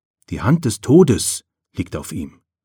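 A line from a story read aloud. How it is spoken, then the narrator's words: Maid whispering. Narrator (German): flüsterte eine Magd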